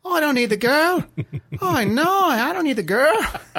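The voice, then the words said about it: Convincing put-on Australian accent. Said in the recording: “This is really spot-on Australian accent.”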